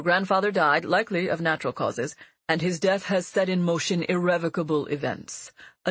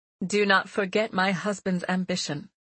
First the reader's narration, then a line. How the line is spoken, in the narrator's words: Mother said flatly